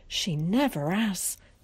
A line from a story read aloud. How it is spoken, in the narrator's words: gasped Ginny